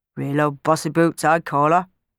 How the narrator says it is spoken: muttered Clem

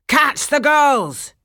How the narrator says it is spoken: shouted one

